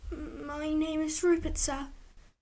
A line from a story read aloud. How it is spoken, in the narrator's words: The boy nervously, yet politely replied